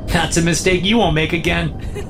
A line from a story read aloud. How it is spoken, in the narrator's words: she laughs